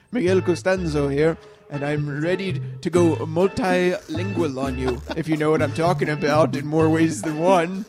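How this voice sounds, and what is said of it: Smooth suave character accent. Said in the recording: “Miguel has to get the ladies all warmed up with his smooth accent”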